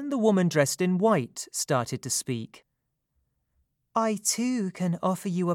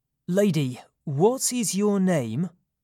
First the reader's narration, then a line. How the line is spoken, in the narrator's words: asked